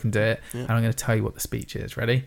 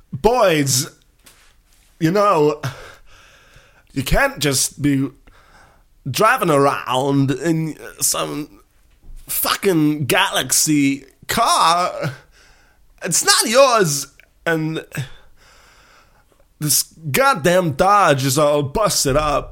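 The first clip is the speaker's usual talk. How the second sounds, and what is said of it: Imitates another person's voice. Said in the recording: “going to do a bit of an impression”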